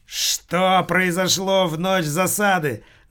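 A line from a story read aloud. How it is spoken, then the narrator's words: Yelling, jumping up. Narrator (Russian): заорал вскочивший с кресла Бухенвальд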